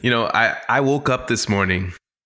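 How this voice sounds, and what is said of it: Put-on accent. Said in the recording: “are you doing an accent right now?”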